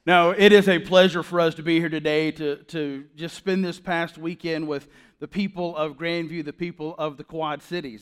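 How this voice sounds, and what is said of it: Loud Southern US accent. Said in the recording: “my loud southern voice ... accent-free”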